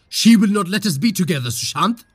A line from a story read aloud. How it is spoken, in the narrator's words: She roared over the sound of the crashing waves